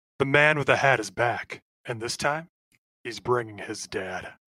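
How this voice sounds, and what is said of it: Deep movie trailer announcer voice. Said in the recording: “your best movie trailer voice”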